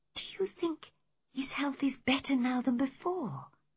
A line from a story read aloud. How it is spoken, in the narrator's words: whispered Cathy